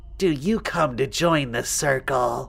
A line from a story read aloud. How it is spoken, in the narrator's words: she asked in a low, childish voice